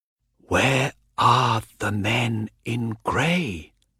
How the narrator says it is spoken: whispered Hawker

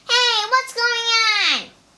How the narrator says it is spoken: shouted Bajie

